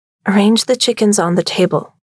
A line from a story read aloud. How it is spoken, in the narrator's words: Greta said